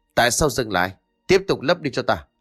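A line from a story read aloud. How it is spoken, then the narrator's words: Throat-clearing old man's shout. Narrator (Vietnamese): Lão pháp sư già kia hắng giọng rồi quát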